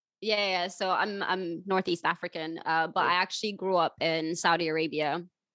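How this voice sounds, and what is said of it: American, Californian-sounding accent. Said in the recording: “just from hearing you speak, will say, oh, you're probably from, you know, California ... I sound like a valley girl? ... you don't sound like you're from this country, from my country”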